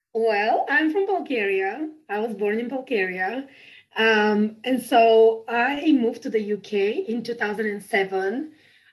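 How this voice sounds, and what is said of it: Non-local, Bulgarian-accented English. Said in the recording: “accent that is not a local accent”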